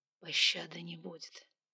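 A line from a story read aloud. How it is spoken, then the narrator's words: Breathed out. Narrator (Russian): выдохнул он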